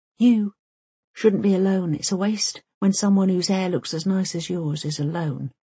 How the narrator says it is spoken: he whispers

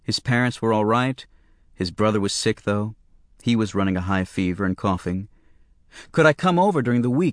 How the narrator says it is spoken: he asked me

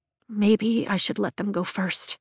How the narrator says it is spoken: I whisper as panic fists my heart

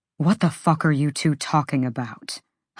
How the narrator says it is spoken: Hunt growled

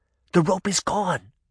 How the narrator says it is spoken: she whispered

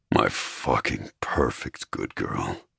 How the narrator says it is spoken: he murmured thickly

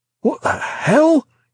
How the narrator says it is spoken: he gasped

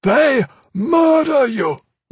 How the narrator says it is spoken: Lord Omnichrome shouted

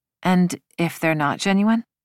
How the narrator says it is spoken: His tone grew serious

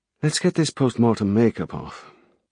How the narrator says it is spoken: she said quietly

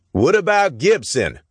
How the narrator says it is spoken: Someone shouted

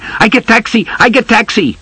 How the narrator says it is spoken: Suddenly, a dirty boy shouting

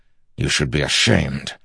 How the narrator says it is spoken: Dalinar growled at him

